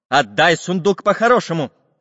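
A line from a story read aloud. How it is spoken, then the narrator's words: Angry. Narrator (Russian): сердито сказал Самоделкин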